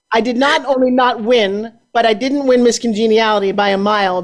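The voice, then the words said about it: New York accent. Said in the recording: “I grew up talking like this, right? Like, I'm from New York. ... y'all have the funniest accent I ever heard”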